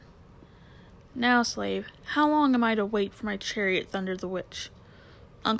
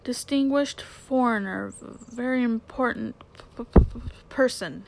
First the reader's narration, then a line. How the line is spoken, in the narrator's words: stammered